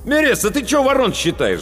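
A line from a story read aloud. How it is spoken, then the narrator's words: Angry shout. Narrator (Russian): злобно окрикнул меня Паводников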